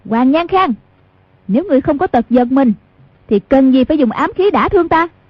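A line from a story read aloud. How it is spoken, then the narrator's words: Sharp shout. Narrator (Vietnamese): Hoàng Dung quát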